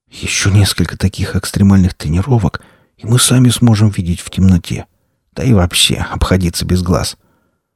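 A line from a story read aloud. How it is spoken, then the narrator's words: Breathless excited whisper. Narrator (Russian): Денис остановился перевести дух и восторженно прошептал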